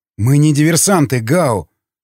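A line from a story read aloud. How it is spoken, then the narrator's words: Protesting exclamation. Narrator (Russian): протестующий воскликнул Николай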